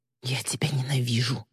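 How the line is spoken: Growled. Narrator (Russian): прорычала

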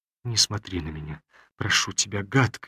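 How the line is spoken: Pleading whisper. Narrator (Russian): умоляюще шептала Олеся

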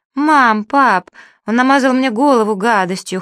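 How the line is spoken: Whimpering. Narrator (Russian): хныкала она

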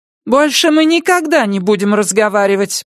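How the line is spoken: Loud firm declaration. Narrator (Russian): громко заявила она

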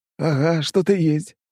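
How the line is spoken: Short chuckle. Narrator (Russian): хохотнул князь

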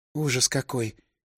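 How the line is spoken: Quiet speech. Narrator (Russian): тихо сказала Маша

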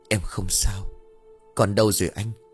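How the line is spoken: Whispering. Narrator (Vietnamese): Diệu thì thào đáp

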